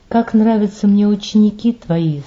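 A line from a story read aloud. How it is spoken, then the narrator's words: Plain. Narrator (Russian): сказал Ксенофонт старцу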